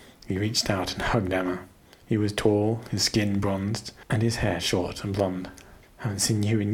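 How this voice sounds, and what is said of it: Usual voice. Nothing is said of it.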